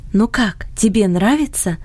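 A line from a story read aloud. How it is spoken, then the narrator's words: Whisper in ear. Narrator (Russian): шепнула она на ухо Фредди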